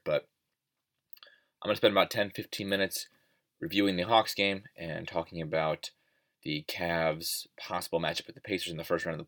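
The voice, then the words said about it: Slightly stuffy, congested voice. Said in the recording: “I'm feeling a little under the weather right now. You can probably hear it in my voice. I'm a little stuffy. Maybe not.”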